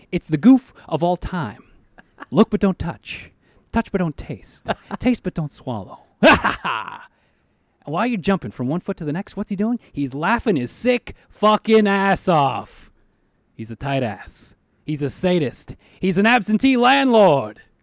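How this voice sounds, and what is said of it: Over-the-top Al Pacino as devil impression. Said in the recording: “me doing my Al Pacino as devil impersonation ... Al Pacino really hamming it up ... Totally over the top”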